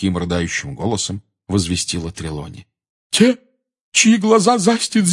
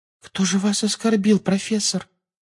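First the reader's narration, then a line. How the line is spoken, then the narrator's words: Babbling timidly. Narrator (Russian): пролепетала Парвати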